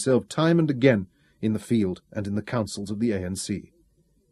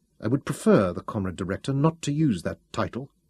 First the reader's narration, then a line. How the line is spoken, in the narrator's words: said coldly